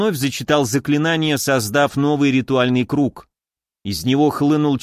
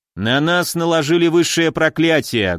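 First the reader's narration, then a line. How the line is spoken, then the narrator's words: Loud. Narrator (Russian): громко сказал я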